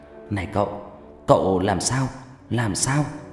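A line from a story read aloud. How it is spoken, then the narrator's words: Panting. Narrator (Vietnamese): Người thanh niên thở hổn hển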